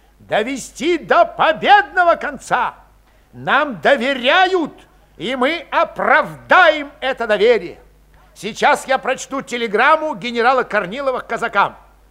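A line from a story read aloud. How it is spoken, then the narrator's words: Sharp, clipped shouting. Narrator (Russian): Калмыков, резко раздельно кричал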